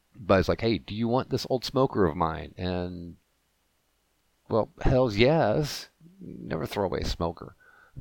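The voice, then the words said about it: Rough, worn-out voice. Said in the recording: “my voice is shot because of frickin' allergies”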